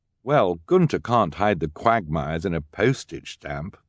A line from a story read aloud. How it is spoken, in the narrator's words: Violet said